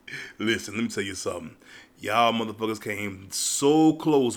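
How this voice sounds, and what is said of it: Tired, sleepy voice. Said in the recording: “I don't know if you can hear it in my voice or not, but I am tired. Very sleepy.”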